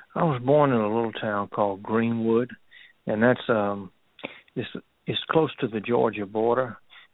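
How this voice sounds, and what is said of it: Southern US, Alabama-like accent. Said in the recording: “you have maintained your accent ... I thought your accent was more Alabama-ish”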